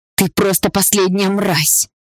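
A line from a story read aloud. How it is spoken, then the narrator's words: Hoarse. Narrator (Russian): Хрипло продолжала Полина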